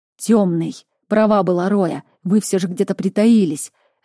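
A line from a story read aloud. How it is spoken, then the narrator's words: Snapped through teeth. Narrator (Russian): огрызнулся сквозь зубы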